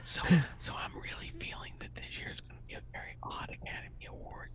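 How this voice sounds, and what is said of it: Whispering. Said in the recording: “Can we whisper all the way out? ... Yes, we'll whisper all the way. ... I only heard like three words.”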